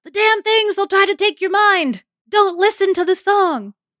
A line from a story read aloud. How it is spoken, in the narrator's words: And then he audibly yells